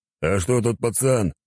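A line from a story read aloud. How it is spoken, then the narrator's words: Growling. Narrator (Russian): зарычал он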